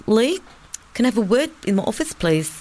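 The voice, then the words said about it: Imitated New Zealand accent, lispy. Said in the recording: “she was from New Zealand, so I'm going to do the accent ... they're always a little bit lispy.”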